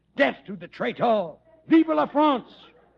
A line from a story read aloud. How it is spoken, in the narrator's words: He shouting